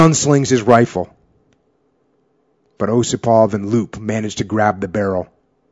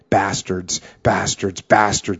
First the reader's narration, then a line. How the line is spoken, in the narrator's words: he whispers